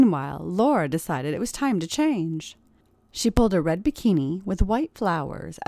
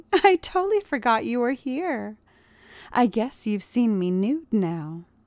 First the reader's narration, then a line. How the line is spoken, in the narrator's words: she giggled innocently